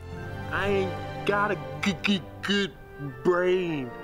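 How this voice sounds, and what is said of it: Accent like Simple Jack. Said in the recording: “he's doing an accent, which is borderline Simple Jack from Tropic Thunder. It's very unpleasant.”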